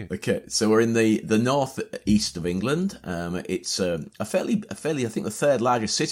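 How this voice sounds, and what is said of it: Northern English accent. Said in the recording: “Hull, as you say ... the Northern English accent”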